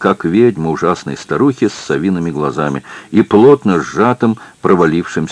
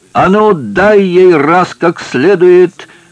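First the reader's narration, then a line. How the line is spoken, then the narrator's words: Shouting from above. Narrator (Russian): крикнул сверху Захарий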